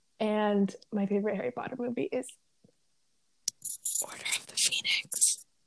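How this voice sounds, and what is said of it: Whispered speech. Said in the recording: “Why did you whisper it? ... I was whispering it because I just wanted it to feel a little personal.”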